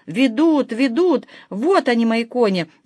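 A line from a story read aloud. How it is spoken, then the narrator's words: Excited shout. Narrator (Russian): закричал меняла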